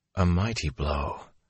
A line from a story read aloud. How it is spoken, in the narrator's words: Moraine murmured